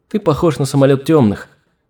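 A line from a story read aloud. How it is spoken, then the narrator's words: Giggling in thought. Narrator (Russian): мысленно хихикнула Алина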